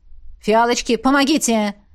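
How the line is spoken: Bark. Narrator (Russian): рявкнула Элисандра

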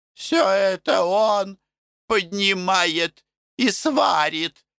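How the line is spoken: Moaning. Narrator (Russian): стонала Пульхерия

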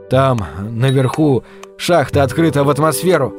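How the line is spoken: Nervous mutter. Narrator (Russian): нервно пробормотал он

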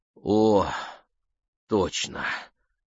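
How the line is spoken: Relieved exhale. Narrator (Russian): с облегчением выдохнул он

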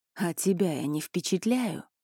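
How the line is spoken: Hoarse question. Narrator (Russian): хрипло поинтересовался Элай

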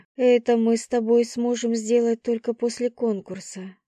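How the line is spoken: Breathless, swooning. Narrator (Russian): выдохнула я, млея от его прикосновения

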